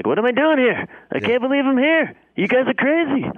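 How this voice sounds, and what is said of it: Imitates another person's voice. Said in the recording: “he's got kind of that Larry David vibe... my amazing Larry David impression... Nailed it.”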